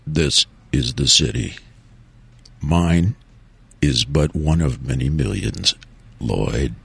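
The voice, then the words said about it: Dramatic narrator voice. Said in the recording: “I'll do my narrating voice”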